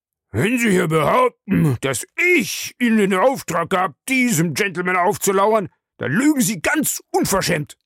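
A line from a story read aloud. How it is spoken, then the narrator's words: Roared. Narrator (German): brüllte Smith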